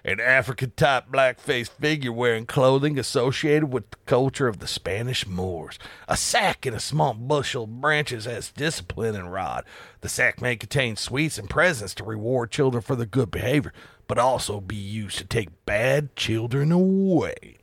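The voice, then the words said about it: Put-on southern accent. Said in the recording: “the southern accent just felt right for that”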